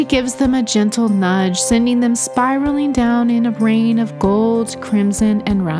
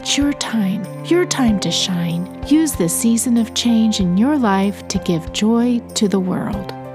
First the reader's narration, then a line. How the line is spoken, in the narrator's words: She whispers to them, saying